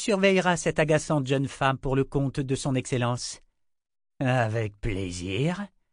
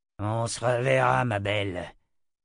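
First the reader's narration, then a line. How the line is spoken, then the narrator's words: Growled. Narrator (French): grogna-t-il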